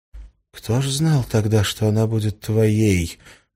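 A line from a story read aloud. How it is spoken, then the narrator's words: Gloomy. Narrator (Russian): мрачно ответила Ольга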